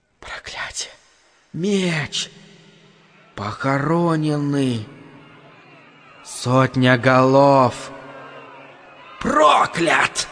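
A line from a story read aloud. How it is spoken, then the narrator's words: Faster, louder whisper. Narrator (Russian): матушка Неб зашептала скорее и громче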